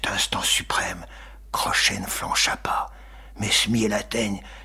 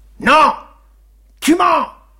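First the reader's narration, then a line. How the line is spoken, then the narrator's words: Broken-voiced shout. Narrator (French): cria Crochet d'une voix cassée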